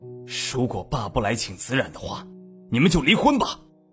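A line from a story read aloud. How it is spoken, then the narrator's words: Angry roar. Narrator (Chinese): 李文渊也愤怒的吼道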